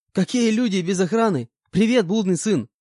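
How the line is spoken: Joyful greeting. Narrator (Russian): Радостно поприветствовал меня Кулер

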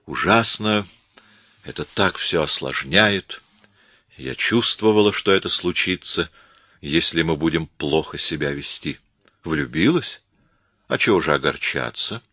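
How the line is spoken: Soft, gentle. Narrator (Russian): мягко сказал Коридон

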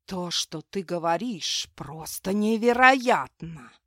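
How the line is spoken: Hissed. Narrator (Russian): прошипел флангал

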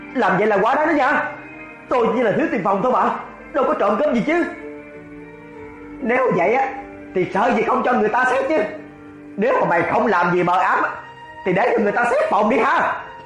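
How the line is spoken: Shouting. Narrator (Vietnamese): Cậu hét lên

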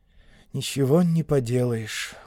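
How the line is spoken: Glum mutter. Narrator (Russian): уныло пробормотал Стокс

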